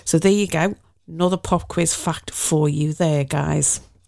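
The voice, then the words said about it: Liverpool Scouse accent. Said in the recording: “I'm from Liverpool. I know, it's hard to tell with my beautiful BBC cut glass accent.”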